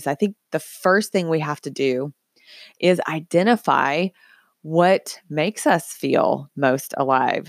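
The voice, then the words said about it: Scratchy voice. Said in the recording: “why my voice sounds pretty scratchy today on the show. I did lots of singing”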